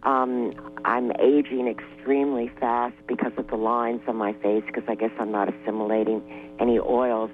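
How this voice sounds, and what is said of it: Weak, failing voice. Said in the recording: “I'm losing my voice.”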